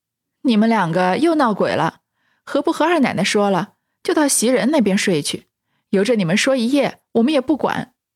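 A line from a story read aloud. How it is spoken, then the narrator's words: Laughing. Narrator (Chinese): 麝月笑道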